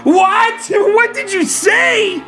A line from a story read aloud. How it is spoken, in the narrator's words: I screamed out again